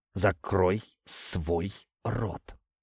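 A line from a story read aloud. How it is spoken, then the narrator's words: Hissed through clenched teeth. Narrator (Russian): прошипел я, стиснув зубы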